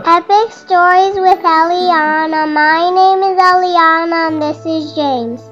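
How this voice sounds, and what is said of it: Excited, energetic child's voice. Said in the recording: “You sound very excited.”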